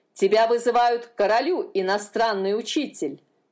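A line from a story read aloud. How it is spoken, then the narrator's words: Barked. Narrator (Russian): рявкнул он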